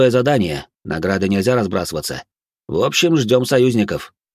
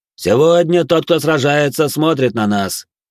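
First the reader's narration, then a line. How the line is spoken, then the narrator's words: Loud proclamation. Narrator (Russian): громко провозгласил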